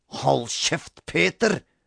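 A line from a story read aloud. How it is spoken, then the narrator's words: Snarled. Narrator (Norwegian): snerret Robin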